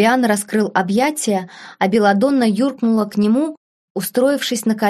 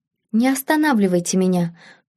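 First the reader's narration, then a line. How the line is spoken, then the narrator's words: Whisper. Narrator (Russian): прошептала принцесса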